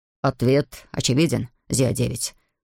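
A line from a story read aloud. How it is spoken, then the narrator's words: Snorting. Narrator (Russian): хмыкнул Равендер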